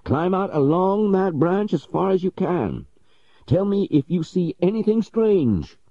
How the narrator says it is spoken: cried Legrand with much excitement

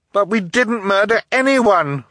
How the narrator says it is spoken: Violet cried

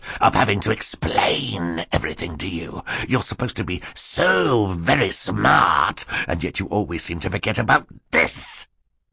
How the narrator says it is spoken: snarled

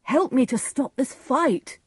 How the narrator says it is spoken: Benvolio cried to him

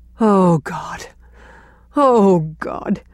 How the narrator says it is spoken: moaned Gertrude Oliver

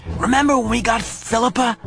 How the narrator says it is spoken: he asked in a loud whisper

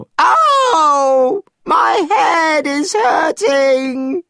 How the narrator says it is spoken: screamed Monkey

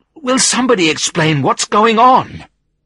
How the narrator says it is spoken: I asked desperately

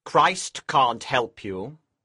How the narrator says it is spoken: Lucifer said coldly

